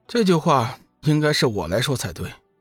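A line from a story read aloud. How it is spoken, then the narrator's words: Indifferent, flat. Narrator (Chinese): 龙宇淡淡的说道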